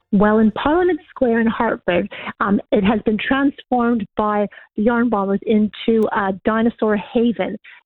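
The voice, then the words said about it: Noticeable regional accent. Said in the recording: “Oh, the accent. I love it.”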